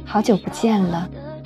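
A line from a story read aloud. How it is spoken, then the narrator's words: Calm, faint smile. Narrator (Chinese): 只淡淡的一笑，说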